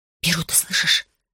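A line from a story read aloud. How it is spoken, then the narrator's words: Neighbor whispering. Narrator (Russian): зашептала соседка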